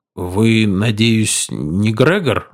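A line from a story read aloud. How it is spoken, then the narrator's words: Timid, shaken question. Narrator (Russian): робко справился Арнольд, слишком потрясенный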